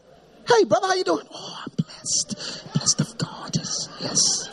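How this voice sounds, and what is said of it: Soft whispery churchy voice. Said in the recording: “Voice change in church ... What's up with all the whispering?”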